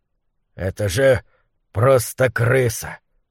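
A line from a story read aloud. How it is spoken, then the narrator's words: Mutter. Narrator (Russian): пробормотал он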